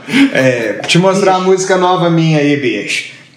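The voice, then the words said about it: Imitates another person's voice. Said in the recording (Portuguese): “Curte a imitação. ... Que é meio Romário também, né? ... imitação, é. Roberto Romário.”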